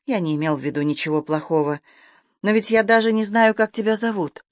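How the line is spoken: Conciliatory tone. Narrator (Russian): примирительным тоном сказал

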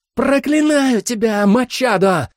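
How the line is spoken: Agonized scream. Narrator (Russian): закричал череп жрицы, когда с нее сорвало лицо

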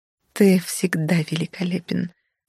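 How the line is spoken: Whispered. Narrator (Russian): зашептала

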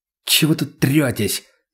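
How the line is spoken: Angry hiss. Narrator (Russian): зло прошипел Роман

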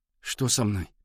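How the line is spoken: Barely audible. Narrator (Russian): еле слышно выговорил Валя

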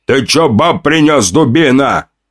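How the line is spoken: Orc warrior's growl. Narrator (Russian): рыкнул на меня один из двух орков-воинов

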